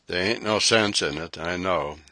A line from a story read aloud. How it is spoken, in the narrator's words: he mumbled apologetically